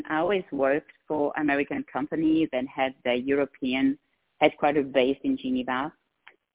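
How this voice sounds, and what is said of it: Slight Swiss accent. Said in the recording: “I have a tiny bit of an accent ... I come from Switzerland”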